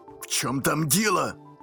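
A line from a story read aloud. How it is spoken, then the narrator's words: Impatient bark. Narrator (Russian): рявкнул директор, теряя терпение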